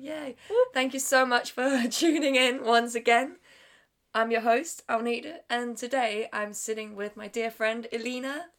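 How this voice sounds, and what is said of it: Sick, congested voice. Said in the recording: “I'm very sorry about my voice. ... I think I've gotten the freshers flu or something like that. ... bear with me while I try to pronounce words and uh, sound okay.”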